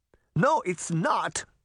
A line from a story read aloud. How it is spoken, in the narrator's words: she cried angrily